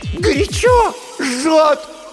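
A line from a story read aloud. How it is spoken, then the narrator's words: Sudden scream. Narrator (Russian): и вдруг закричала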